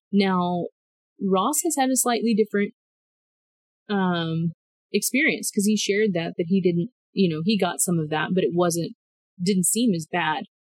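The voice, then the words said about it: Speaker's own regional accent. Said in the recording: “let me make sure I pronounce that correctly with my accent.”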